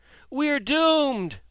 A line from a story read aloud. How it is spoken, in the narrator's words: many cried out